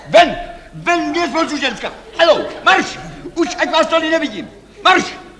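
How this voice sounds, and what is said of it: Shouting. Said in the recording (Czech): “Nekřičte.”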